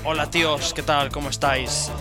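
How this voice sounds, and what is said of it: Imitates a Spain Spanish accent. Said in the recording (Spanish): “allá hablan con otro acento completamente diferente ... expresiones así en gachupín”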